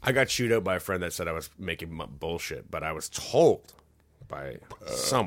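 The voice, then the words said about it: Rough, raspy voice. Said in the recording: “my voice is rough now”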